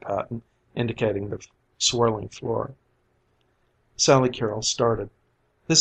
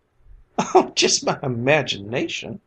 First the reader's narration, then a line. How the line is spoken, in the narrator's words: laughed Sally Carrol